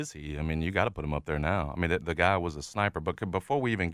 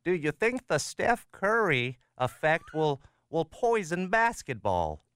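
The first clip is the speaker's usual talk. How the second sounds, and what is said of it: Impression of co-host's questioning voice. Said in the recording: “can I do a little impression of you, if you don't mind? ... This has sort of been you over the years.”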